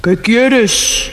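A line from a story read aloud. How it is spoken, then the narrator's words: Thunderous voice. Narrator (Spanish): le preguntó al príncipe con voz de trueno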